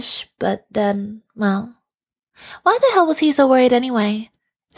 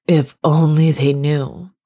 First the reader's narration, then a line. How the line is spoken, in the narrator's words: sighed